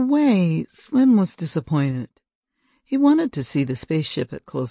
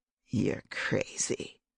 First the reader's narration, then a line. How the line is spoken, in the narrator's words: He muttered